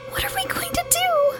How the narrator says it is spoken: Alice whispered, whimpering slightly

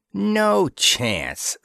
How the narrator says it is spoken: snarled Dispro

